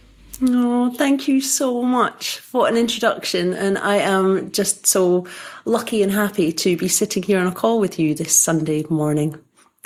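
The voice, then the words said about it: Scottish accent. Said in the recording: “I'm from Scotland, as you can tell from the accent.”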